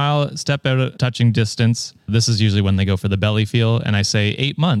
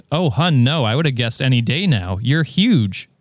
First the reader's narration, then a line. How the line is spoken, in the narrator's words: with shocked expression and exclaimed